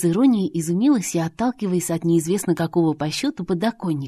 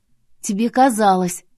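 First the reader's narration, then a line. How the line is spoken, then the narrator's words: Dismissive snort. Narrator (Russian): фыркнула я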